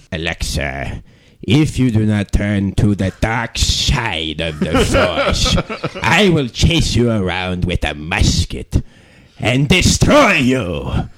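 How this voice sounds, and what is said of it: Star Wars Emperor impression. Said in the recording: “does a great Emperor impression ... Star Wars”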